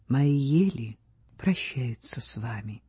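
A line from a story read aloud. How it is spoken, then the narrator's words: Soft. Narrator (Russian): сказал мягко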